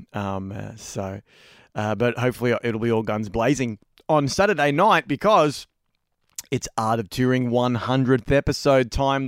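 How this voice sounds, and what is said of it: Slightly hoarse, strained voice. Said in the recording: “I'm losing my voice a little bit”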